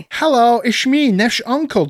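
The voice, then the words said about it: Put-on funny Dutch accent. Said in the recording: “I'm a whole new character with a funny accent.”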